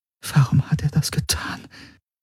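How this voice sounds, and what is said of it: Whispered line. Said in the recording (German): “Flüsterte”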